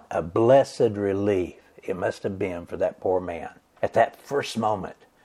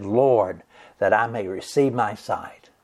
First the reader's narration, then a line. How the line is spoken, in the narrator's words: he cried out to Jesus, and he said